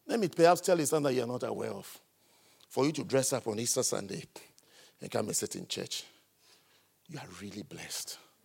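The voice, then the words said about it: Foreign, non-local accent. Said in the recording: “I think you can tell from the way I sound, the way my voice is, that I didn't grow up from here. ... Can you tell from the way I am talking that I am not from here? I'm not from here at all.”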